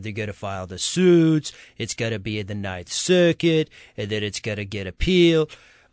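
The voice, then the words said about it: Sing-song imitation of another person. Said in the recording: “with his little sing-song language ... my horrid impression”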